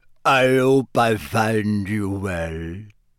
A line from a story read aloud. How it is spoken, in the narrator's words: said in a deep voice